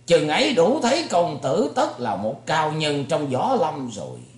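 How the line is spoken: Amazed loud laughter. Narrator (Vietnamese): Bành Trí trố mắt kinh ngạc, lại cười lớn hơn

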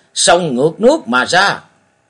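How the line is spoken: Loud group shout. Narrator (Vietnamese): Gần 10 tên gia nhân họ Hồng liền thét to lên một tiếng

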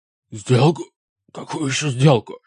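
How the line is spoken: Hoarse wheeze. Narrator (Russian): прохрипел он

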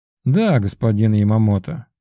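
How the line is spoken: Amused snort. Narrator (Russian): хмыкнул Верховный

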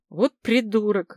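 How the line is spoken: Indignant mutter. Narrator (Russian): возмущенно буркнула Людмила

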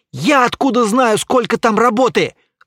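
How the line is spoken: Barking. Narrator (Russian): рявкнул Стас

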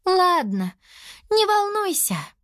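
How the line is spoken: Sigh. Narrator (Russian): вздохнула Лиана

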